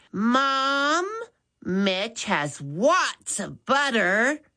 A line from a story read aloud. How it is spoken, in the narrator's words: Maddie said loudly